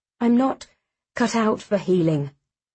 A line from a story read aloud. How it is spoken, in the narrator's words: he says